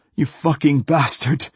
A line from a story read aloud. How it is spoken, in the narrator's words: He gasped